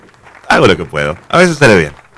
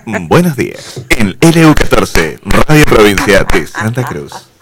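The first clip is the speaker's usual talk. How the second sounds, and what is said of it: Radio announcer voice. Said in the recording (Spanish): “qué voz de locutor”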